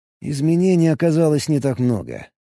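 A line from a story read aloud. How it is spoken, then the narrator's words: Mumble. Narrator (Russian): пробормотал Алекс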